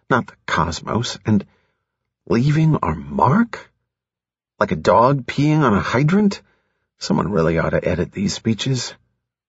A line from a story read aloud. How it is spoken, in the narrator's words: Jason whispered